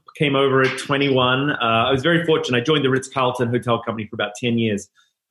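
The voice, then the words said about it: Slight New Zealand accent. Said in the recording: “there'll be a little accent that'll come in and out, but I'm originally from New Zealand”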